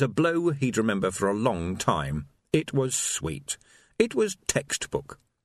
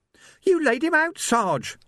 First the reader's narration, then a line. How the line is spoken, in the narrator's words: Sam squeaked